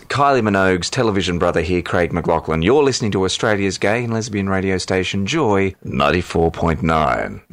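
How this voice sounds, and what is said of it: Polished radio announcer voice. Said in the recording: “That was my best radio voice.”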